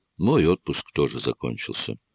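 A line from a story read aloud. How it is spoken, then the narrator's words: Sad reply. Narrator (Russian): печально отозвался я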